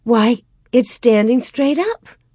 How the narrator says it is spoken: Mary exclaimed

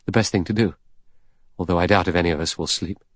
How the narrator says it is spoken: The doctor murmured

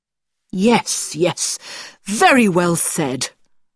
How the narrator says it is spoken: cried my guardian

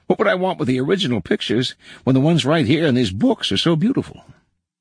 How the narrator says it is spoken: he exclaimed

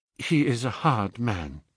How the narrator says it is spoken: she said

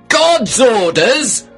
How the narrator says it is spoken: I shouted, furious

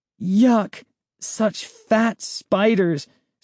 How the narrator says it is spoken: Sari groaned

